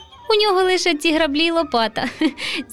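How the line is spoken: Laughing boy. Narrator (Ukrainian): засміявся руденький Романко

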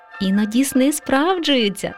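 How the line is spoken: Laughing mother mouse. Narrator (Ukrainian): засміялася мама мишка

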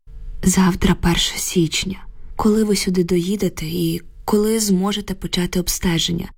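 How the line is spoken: Tired question. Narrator (Ukrainian): втомлено запитала я

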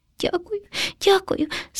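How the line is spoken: Frightened hamster sobbing. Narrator (Ukrainian): схлипнув наляканий хом'ячок

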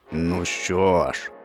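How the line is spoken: Growling. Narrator (Ukrainian): загарчав лев

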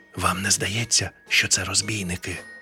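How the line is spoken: Ghost's whispered question. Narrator (Ukrainian): пошепки спитав привид

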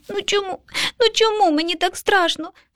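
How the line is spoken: Sobbing child. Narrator (Ukrainian): схлипнув малюк

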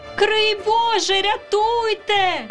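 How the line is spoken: Young ladies crying out. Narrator (Ukrainian): крикнули панночки

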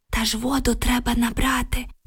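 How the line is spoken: Whispered reply. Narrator (Ukrainian): прошепотіла Оксана у відповідь

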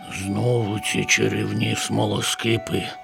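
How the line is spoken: Sighing little dragon. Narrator (Ukrainian): зітхнув дракончик

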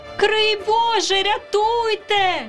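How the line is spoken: Young ladies shout. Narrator (Ukrainian): крикнули панночки

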